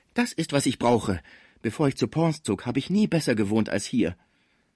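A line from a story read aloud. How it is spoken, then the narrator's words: Calling out. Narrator (German): Alsbald rief Schmucke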